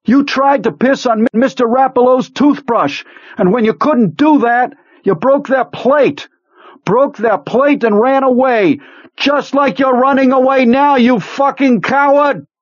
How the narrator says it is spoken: Not knowing what he was going to say, knowing only that it was his last chance, he screamed

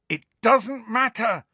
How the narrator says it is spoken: Harry shouted

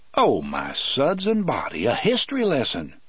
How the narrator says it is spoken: Brutal exclaimed

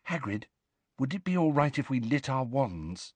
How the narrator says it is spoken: said Hermione quietly

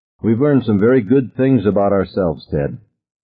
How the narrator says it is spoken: Susan said coldly

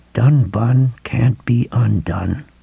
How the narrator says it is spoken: Ralph murmured

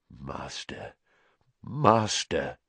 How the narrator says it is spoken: he murmured

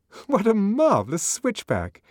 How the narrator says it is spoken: Lenina laughed delightedly

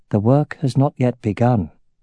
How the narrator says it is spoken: in a mild voice said

